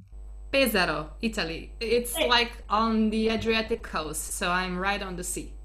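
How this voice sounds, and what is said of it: Italian accent in English. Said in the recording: “how gorgeous is that accent? I think it's going to be worthwhile listening to this podcast just for your accent”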